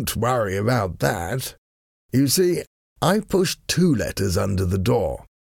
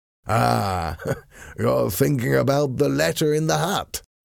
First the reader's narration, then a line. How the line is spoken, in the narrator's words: Sir Percy said with a laugh